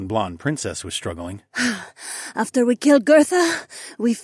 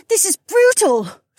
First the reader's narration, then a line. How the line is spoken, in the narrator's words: Sienna gasped as she tripped over a rock